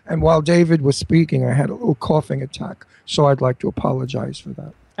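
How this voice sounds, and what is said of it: Raspy voice. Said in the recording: “I still haven't gotten rid of my cough, as you can tell by my raspy voice.”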